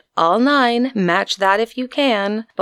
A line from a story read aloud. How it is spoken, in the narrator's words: cheerfully he shouted